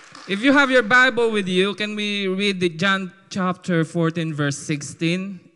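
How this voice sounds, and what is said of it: Filipino call-center English accent. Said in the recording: “I'll just use my call center Filipino accent”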